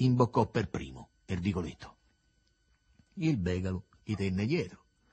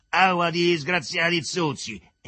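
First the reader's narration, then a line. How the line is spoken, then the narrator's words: Mistress screaming extremely loud. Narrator (Italian): Era la padrona che urlava, e così forte da rompersi la vena dell'orina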